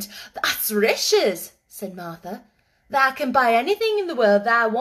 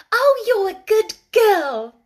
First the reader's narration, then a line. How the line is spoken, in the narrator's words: Mary cried